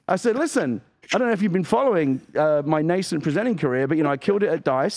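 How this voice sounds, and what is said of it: British accent. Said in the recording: “a middle-aged thirst trap... With a British accent”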